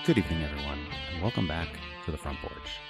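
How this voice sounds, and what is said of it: Smooth radio announcer voice. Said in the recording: “That sounded like a late-night talk show host ... I started out with my NPR voice and then gave up on it.”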